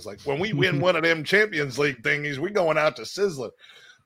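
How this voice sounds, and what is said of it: Exaggerated Texan accent. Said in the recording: “I like to add, you know, the extra accent, because, you know, he has a ranch in Texas.”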